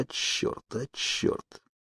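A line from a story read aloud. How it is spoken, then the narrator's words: Wounded man muttering low. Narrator (Russian): Окровавленный мужчина бормотал вполголоса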